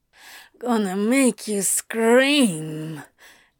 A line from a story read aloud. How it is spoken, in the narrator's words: Antony growled